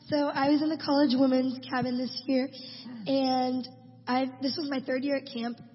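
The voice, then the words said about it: Hoarse, nearly lost voice. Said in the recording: “I lost my voice”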